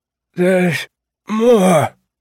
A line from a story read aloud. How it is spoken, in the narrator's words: Percy said in his rough, dying voice